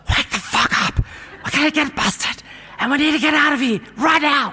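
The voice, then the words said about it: Aggressive whisper. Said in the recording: “with an aggressive whisper.”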